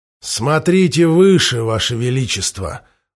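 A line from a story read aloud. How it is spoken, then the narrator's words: Sullen, through teeth. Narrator (Russian): угрюмо процедил Роллинг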